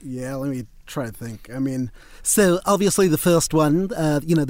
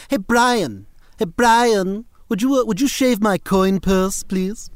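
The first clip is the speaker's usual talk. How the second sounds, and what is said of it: Stewie Griffin character voice. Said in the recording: “the one everyone loves is Stuart Gilligan Griffin.”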